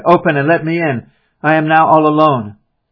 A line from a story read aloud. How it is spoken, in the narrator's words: I cried